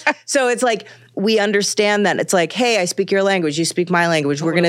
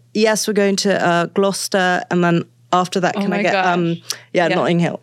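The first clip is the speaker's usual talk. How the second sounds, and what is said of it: Put-on British accent. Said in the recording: “I fully style shift and like code switch into a full British accent”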